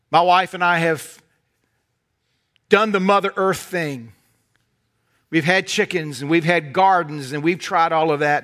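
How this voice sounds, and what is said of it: Southern American accent. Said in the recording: “you can tell from this carefully crafted accent, so I'm not from around here, y'all. But in North Carolina”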